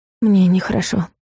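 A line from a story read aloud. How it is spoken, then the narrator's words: Breathed out. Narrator (Russian): выдохнула Луиза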